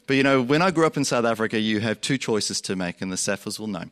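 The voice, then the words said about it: Mixed South African and Australian accent. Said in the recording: “I grew up in South Africa. You'll hear my accent go like this because I also grew up in Australia”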